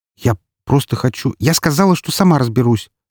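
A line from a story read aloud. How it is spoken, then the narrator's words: Sharp retort. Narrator (Russian): резко бросила она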